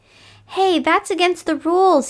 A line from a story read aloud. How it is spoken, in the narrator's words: he shouted